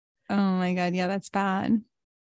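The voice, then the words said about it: Flat deadpan delivery. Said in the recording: “that's my deadpan just reaction”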